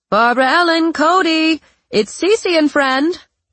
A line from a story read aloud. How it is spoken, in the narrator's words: she called out over the sound of hammering